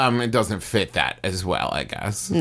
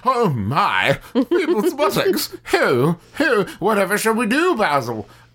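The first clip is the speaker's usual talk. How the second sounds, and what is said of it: Put-on weird British accent. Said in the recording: “my weird British accent”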